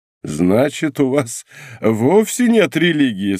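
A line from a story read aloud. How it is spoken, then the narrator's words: Laughing. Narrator (Russian): сказал, смеясь, лорд Винтер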